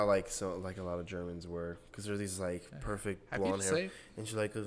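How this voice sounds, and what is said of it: Usual voice. Nothing is said of it.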